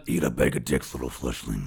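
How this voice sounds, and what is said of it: Megatron impression. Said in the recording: “my impression of Megatron ... Now I need to hear eat a bag of dicks as Megatron”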